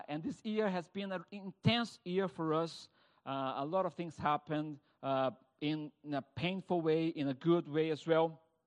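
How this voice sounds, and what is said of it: Brazilian accent. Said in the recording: “my accent shows that I'm not British, I'm not French, I'm not Italian, I'm Brazilian”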